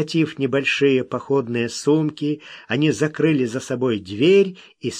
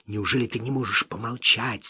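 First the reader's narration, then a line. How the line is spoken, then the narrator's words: Angry whisper. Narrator (Russian): сердитым шепотом проговорил Смок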